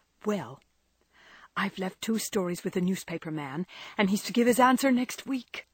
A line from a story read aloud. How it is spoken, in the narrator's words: whispered Joe in her confidant's ear